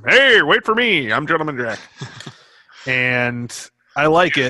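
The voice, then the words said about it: Put-on old-timey movie accent. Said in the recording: “It's like an old-timey movie ... I don't know what this accent is, but I like it.”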